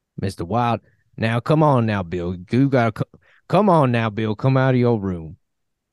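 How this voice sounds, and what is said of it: Exaggerated southern rube accent. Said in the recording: “all the Montana people have southern accents ... the default Middle America accent ... telegraph that somebody's a rube, you have to give them that accent”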